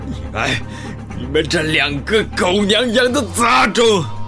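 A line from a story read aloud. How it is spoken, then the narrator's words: Furious roar. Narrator (Chinese): 狂怒的吼叫道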